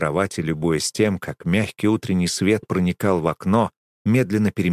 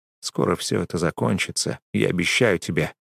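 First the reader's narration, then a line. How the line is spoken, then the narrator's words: Whisper. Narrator (Russian): прошептал я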